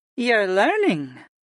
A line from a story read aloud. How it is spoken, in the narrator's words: Sarah remarked in an amused tone